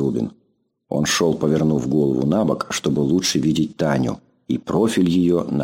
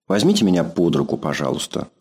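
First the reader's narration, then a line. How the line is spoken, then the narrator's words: Plain. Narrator (Russian): сказала Таня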